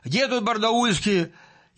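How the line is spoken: Old man shouting loudly. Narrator (Russian): Старик этот закричал громко

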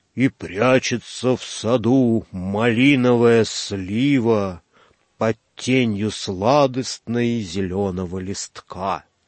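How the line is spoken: Heavy menacing howling loudspeaker voice. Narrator (Russian): Из черной треснувшей тарелки громкоговорителя раздалось прерывистое хрипение, потом чугунный и грозный голос сказал с подвывом

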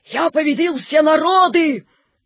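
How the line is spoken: Hissing shout. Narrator (Russian): Наполеон крикнул шипящим голосом

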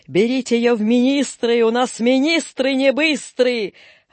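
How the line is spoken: Laughing. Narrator (Russian): вице-губернатор смеялся

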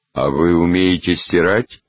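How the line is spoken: Gloomy question. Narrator (Russian): мрачно спросил чей-то голос

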